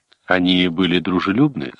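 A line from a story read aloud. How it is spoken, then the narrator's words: Plain. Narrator (Russian): спросил он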